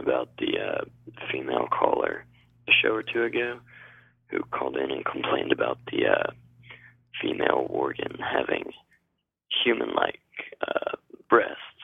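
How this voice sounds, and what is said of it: Sick, under-the-weather voice. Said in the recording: “A little under the weather right now. You can tell by my voice”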